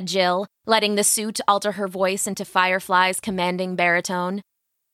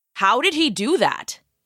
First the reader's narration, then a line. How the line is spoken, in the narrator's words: Jill asked in her Firefly voice